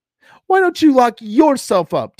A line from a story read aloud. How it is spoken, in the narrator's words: Tina snapped